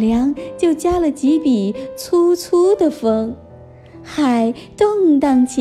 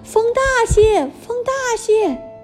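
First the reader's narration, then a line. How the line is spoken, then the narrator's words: Impatient emperor shouting. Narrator (Chinese): 皇帝心里痒痒的，嫌船走得太慢，在船头上大叫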